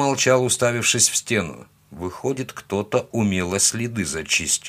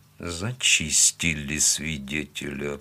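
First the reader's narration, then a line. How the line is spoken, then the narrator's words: Muttering. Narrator (Russian): пробормотал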